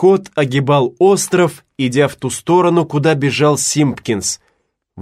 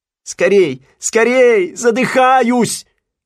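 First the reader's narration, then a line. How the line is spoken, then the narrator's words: Shouting. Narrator (Russian): кричал Симпкинс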